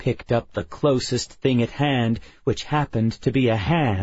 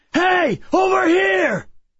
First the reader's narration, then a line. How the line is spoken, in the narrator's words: I shouted at it, first in English